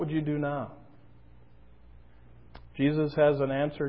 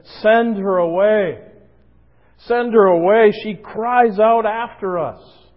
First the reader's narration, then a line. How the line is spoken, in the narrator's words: In their frustration, they even called out to Jesus in a forceful way, and they said